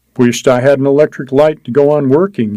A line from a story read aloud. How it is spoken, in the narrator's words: he said